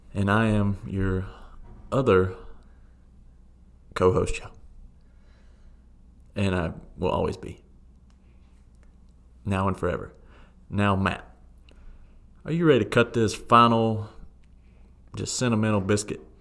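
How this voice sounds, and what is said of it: Southern US twang. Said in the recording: “with a Southern twang”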